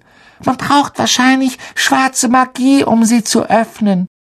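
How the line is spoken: Squeaky. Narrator (German): piepste Parvati Patel

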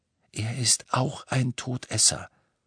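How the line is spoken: Breathed softly. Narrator (German): hauchte Griphook

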